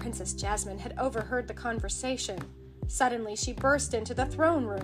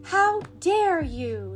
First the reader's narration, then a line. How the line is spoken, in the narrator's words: cried angrily